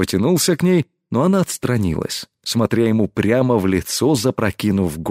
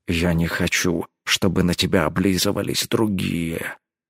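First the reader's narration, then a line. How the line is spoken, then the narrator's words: Quiet speech. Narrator (Russian): тихо произнес он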